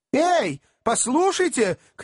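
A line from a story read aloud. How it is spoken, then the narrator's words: Angry shout. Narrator (Russian): крикнул рассерженный мистер Пиквик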